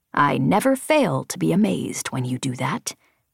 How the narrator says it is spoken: Embot said quietly

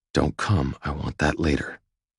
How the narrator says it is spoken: I whisper

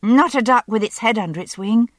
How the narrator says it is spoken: asked Brianna anxiously

